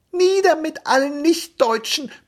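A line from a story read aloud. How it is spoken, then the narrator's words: Squeaky young voice. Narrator (German): piepste der Jüngste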